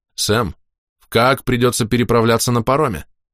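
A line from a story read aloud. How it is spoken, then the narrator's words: Thoughtful hmm. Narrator (Russian): Он хмыкнул и высказал вслух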